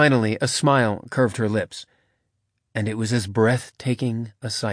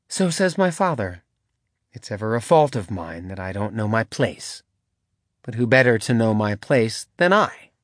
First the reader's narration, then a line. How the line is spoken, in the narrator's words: says I